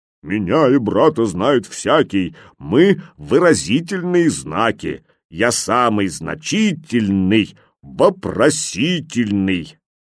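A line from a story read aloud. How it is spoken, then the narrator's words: Thick-voiced singing. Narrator (Russian): Крючок запел толстым голосом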